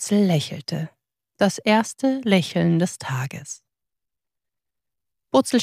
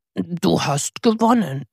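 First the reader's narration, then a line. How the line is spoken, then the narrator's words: Grumbled. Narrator (German): brummte Toni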